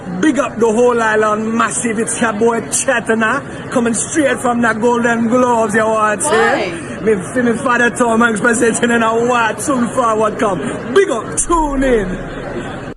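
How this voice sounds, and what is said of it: Put-on Caribbean island accent. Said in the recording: “why does he have like that accent? ... He fucks with the Islands Heavy”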